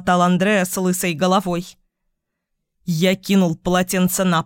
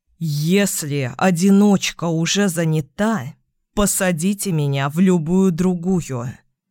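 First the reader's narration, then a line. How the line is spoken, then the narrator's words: Through gritted teeth. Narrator (Russian): процедил я сквозь зубы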